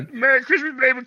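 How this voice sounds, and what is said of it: Goofy Yoda-like character voice. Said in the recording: “Sounds like a really bad impression of Yoda... It's like a Yoda Barney... little Barney Gumble, little Yoda”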